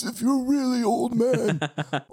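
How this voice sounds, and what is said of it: Old man character voice. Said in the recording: “I have an old man voice that's kind of like this”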